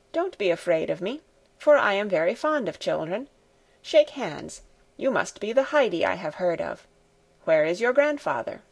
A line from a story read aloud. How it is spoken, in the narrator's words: When he saw how startled she was, he said in a kind voice